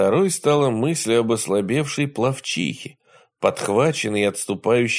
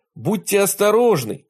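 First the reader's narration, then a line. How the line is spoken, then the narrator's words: Boy shouting. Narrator (Russian): крикнул мальчик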